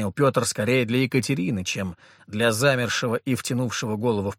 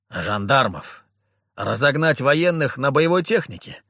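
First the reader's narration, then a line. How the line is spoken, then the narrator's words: Amused snort. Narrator (Russian): фыркнул, словно услышав хорошую шутку Петр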